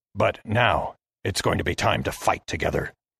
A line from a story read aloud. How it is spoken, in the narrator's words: he hissed to me